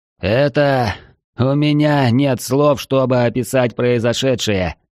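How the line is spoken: Commentator, strained words. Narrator (Russian): выдавил комментатор

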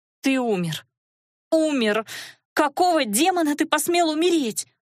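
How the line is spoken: Muffled sobbing accusation. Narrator (Russian): Уткнувшись в его грудь и всхлипывая, обвиняла мужа Наташа

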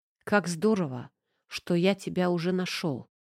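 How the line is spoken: Tender whisper. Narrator (Russian): прошептал он нежно

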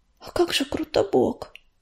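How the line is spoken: Whisper. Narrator (Russian): прошептала она

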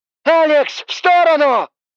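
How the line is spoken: Shout. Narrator (Russian): Снова закричала тень

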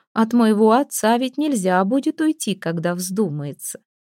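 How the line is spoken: Mocking, meaningful reply. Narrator (Russian): насмешливо и многозначительно ответила Альдона

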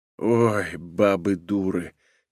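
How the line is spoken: Quiet groan. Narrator (Russian): тихо простонал ее провожатый

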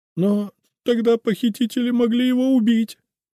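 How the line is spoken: Exclaimed. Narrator (Russian): воскликнула Эльза

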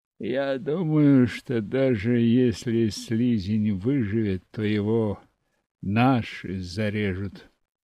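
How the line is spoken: Lazy remark, stocky bearded man. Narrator (Russian): лениво добавил совсем невысокий, но коренастый мужчина с окладистой бородой

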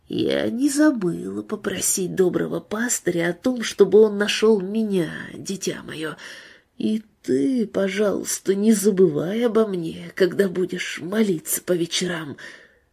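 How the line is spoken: Whisper in the ear. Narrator (Russian): она шепнула на ухо Розалии

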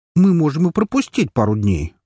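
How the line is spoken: Indignant blurt. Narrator (Russian): возмущенно выпалила Белка

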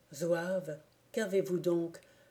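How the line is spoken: Broken, faltering voice. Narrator (French): dis-je d'une voix entrecoupée

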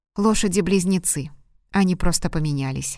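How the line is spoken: Plain. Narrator (Russian): сказал он

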